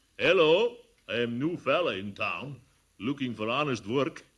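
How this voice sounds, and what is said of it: Put-on foreign dialect. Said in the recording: “wait till I try this dialect on him”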